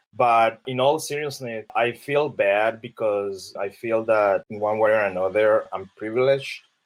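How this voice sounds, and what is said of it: Colombian Spanish accent. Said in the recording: “I'm from Colombia. I'm an immigrant. I have an accent.”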